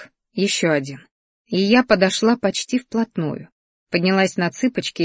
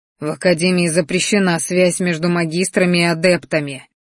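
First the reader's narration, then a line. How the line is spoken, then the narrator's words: Angry growl. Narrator (Russian): рыкнул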